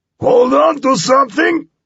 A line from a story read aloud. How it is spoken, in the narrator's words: Skippy roared